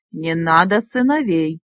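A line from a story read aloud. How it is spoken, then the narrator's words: Snort. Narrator (Russian): Кузнец фыркнул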